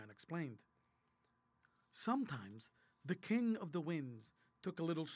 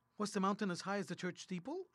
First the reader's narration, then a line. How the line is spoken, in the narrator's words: asked Marmaduke